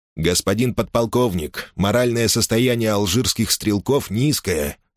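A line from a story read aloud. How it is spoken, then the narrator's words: Plain. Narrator (Russian): сказал капитан Массон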